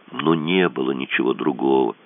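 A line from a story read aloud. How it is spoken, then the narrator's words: Sad. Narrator (Russian): грустно сказал Кацуба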